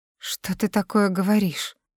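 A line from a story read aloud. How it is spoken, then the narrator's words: Trembling, disbelieving voice. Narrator (Russian): Дрожащим голосом уточняю я, ни в какую не желая принимать ужасные домыслы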